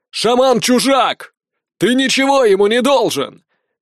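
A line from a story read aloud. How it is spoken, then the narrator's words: Shouting after someone. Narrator (Russian): крикнул ему вдогонку Халт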